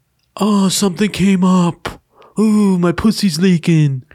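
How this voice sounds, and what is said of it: Imitates another person's voice. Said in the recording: “That was a good impression, yeah. ... You had a good impression.”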